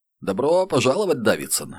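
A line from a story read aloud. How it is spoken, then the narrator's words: Cheerful declaration. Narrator (Russian): весело заявил он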